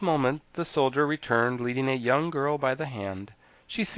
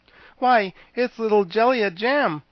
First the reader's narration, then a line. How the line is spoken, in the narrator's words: exclaimed the Scarecrow